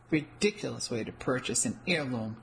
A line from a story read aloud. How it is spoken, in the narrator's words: the woman behind the glass counter murmured disgustedly